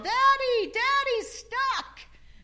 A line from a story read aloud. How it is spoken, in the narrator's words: she would yell